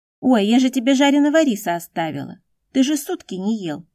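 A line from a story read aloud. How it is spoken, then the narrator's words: Cry out. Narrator (Russian): скрикнула Ван Лин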